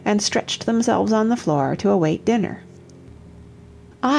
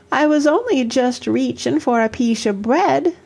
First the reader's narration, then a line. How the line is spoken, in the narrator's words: sobbed Toddy